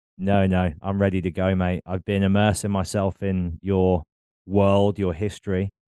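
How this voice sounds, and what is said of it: British accent. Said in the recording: “as anybody who's tuned into this with a discerning ear will be able to tell, I'm obviously from the UK”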